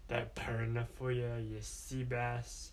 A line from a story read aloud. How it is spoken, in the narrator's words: she said in her best pirate voice